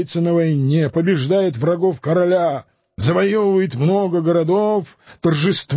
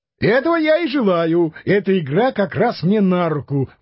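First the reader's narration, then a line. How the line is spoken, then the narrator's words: Exclaiming. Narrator (Russian): воскликнул Санчо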